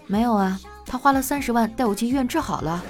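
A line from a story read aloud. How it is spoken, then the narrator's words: Calm, indifferent girl. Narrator (Chinese): 女孩淡淡的说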